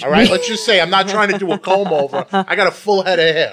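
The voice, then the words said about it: New York accent. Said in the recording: “you have a New York accent.”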